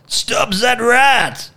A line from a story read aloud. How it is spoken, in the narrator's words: Andre screamed, racing towards him